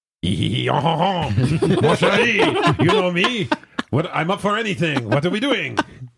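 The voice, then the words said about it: Terrible put-on French accent. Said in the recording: “He texts with a French accent... a terrible French accent.”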